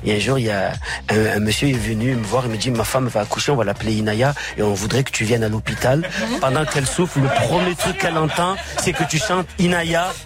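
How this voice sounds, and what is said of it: Marseille French accent. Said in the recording (French): “il est marseillais, hein, vous l'avez entendu à son accent.”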